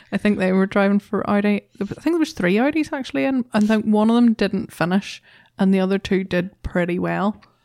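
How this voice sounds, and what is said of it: Northern Irish accent. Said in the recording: “my horrendous Northern Irish accent”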